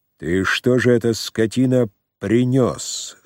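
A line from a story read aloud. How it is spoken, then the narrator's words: Slow, deliberate question. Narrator (Russian): спросил он у Кербалая, медленно выговаривая каждое слово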